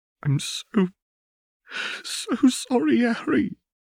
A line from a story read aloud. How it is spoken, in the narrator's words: she gasped in between sobs